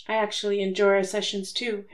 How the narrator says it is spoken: Harry admitted softly

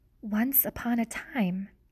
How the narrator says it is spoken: whispered Despero

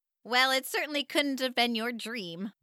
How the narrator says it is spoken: Mom chuckled

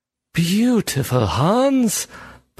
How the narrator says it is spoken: Berkson breathed

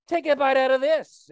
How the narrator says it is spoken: shouted

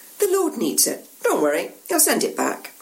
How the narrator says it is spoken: One of the two men says calmly, in what you recognise as a Galilean accent

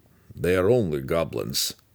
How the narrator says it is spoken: he muttered grimly

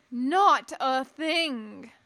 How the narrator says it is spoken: the Besselisk bellowed

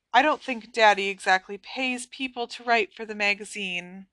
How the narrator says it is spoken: said Luna dreamily

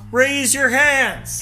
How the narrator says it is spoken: He shouted

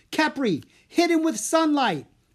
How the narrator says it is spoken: Anna yelled

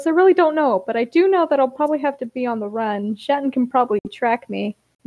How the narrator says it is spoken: Grape sighs and says

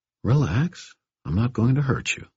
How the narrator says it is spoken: I said, keeping my voice gentle

